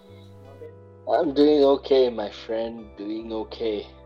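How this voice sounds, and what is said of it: Tired, lifeless zombie-like voice. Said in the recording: “You sound like a zombie. ... adulting can leave you pretty tired.”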